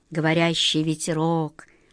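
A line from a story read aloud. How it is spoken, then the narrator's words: Muttered. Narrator (Russian): пробормотал волшебник Алеша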